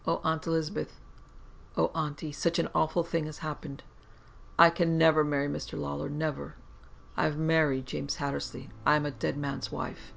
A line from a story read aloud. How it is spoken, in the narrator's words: she said in a whisper